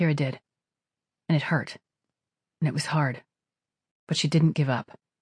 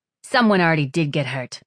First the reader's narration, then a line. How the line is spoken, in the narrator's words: said Sparrow in a cutting tone